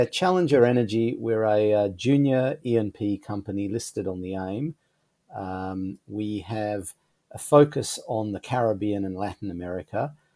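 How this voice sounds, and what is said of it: Australian accent. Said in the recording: “I have the Australian accent.”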